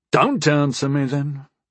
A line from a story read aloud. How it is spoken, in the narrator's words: Nexus said in an unbothered voice